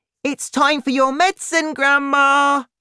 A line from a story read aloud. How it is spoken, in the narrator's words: he shouted